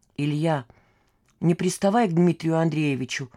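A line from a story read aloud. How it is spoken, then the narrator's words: Quiet request. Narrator (Russian): тихо попросила Маша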